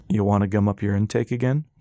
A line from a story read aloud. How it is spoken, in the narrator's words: Four asked, laughing